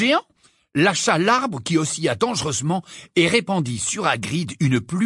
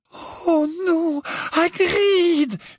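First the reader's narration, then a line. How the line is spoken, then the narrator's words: Moaning. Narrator (French): gémit Hermione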